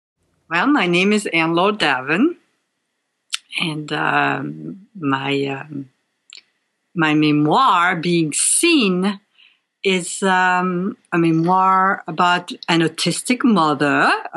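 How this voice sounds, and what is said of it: French accent. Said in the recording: “you have a French accent”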